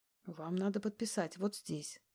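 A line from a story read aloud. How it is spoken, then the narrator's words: Quiet soothing voice. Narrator (Russian): говорю я тихим голосом, стараясь расслабить напряжение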